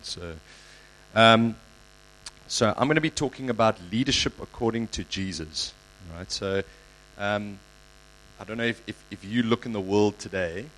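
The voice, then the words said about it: Voice sounds sick. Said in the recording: “excuse my voice, I'm a little bit sick at the moment.”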